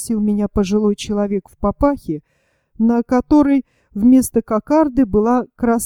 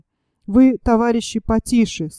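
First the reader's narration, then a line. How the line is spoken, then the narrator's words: Plain. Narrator (Russian): сказал он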